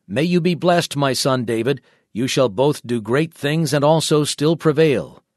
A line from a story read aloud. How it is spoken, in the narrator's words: Saul exclaimed